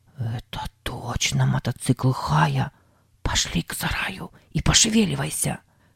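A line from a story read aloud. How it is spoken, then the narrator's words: Whisper. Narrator (Russian): прошептал Сэм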